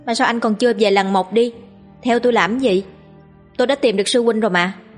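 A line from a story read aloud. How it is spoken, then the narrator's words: Icy cold. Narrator (Vietnamese): buông ra một câu lạnh lùng băng giá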